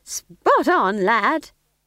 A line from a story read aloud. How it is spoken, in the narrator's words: said Nanny cheerfully